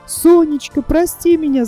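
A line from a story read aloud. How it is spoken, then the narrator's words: Shouting. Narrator (Russian): закричала Гуля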